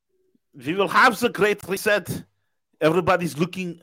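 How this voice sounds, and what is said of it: Exaggerated TV German accent. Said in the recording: “Nobody sounds that German. That's like TV German accent ... Now I sound like Arnold”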